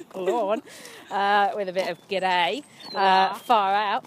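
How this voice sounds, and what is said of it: Exaggerated Australian accent. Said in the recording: “in a really Aussie accent”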